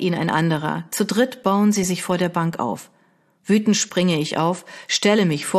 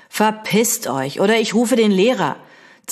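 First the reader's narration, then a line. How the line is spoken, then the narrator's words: Threatening hiss. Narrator (German): zische so bedrohlich wie möglich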